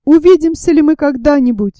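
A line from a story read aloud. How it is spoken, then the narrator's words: Exclaiming. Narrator (Russian): воскликнул Паганель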